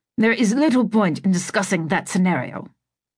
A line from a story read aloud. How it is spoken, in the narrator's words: Marcus had pointed out, somewhat testily